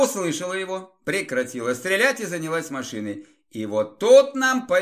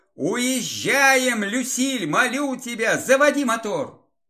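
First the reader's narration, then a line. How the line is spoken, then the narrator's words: Shout. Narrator (Russian): крикнул бабе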